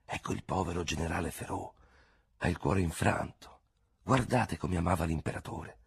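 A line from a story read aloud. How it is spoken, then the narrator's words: Crowd whispering. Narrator (Italian): la gente, dandosi di gomito, bisbigliava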